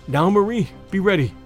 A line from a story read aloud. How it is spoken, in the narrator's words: I gasped